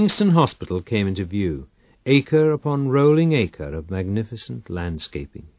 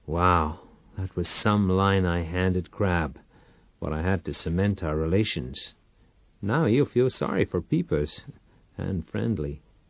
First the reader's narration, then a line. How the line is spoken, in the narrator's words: grinned and muttered